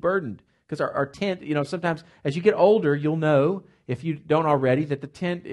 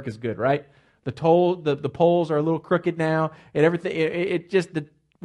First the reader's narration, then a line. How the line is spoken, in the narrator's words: we groan